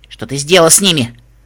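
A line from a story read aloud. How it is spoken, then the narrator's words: Sharp question. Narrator (Russian): спросила резким голосом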